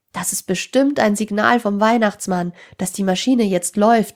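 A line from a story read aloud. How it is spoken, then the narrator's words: Calling out. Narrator (German): rief Tim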